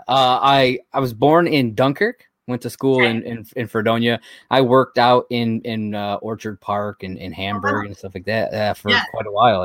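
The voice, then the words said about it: Slight Great Lakes accent. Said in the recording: “I hear a little bit of that Great Lakes accent.”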